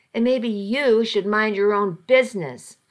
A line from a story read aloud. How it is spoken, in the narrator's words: I snapped